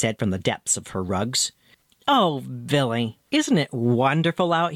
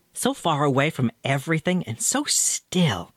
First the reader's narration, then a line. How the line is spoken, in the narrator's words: she exclaimed after a while